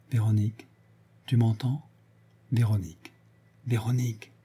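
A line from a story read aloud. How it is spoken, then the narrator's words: Hushed low voice. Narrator (French): Il dit, tout bas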